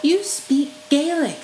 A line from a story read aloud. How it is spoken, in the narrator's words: Lucas cried